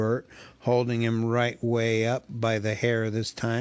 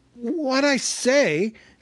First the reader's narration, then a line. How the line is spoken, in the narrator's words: said Bilbo, gasping